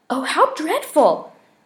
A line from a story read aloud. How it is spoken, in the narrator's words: cried Peter, looking quite as shocked as he felt